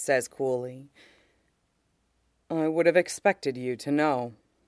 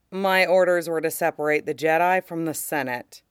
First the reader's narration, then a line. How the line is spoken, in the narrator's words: he says blandly